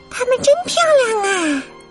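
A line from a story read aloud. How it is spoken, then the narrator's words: Smiling. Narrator (Chinese): 阳光小姐也微笑着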